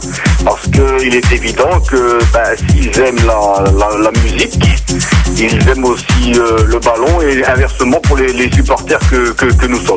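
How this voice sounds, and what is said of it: Regional French accent. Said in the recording (French): “vous l'avez entendu à mon accent”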